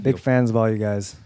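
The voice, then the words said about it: Put-on Australian accent. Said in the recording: “That's a very good Australian accent ... No, it was pretty bad.”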